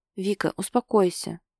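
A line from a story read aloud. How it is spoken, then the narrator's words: Calm, restraining tone. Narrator (Russian): спокойно пытается осадить ее Максуд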